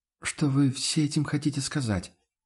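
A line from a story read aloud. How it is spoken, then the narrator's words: Confused mumble. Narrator (Russian): растерянно пробормотала Амалия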